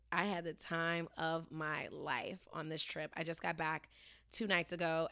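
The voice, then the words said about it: Tired voice, slightly off. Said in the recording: “my voice is still a little bit off ... I'm pretty dead”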